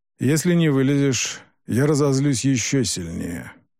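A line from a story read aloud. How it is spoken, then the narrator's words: Gloomy promise. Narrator (Russian): мрачно пообещал Юкай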